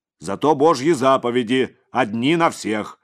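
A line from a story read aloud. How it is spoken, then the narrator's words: Angry priest. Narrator (Russian): сердито сказал отец Егорий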